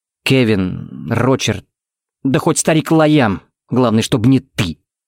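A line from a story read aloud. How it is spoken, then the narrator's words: Through gritted teeth. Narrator (Russian): процедил Тикс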